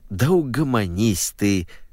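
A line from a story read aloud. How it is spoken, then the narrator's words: Pleading. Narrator (Russian): взмолился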